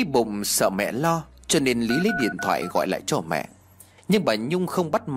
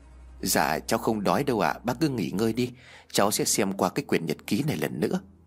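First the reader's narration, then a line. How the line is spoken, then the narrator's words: Soft laugh. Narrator (Vietnamese): Lý liền khẽ cười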